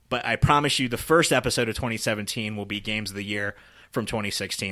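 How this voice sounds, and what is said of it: Hoarse, worn-out voice. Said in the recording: “I can't even talk, dude. You can tell how gone my voice is.”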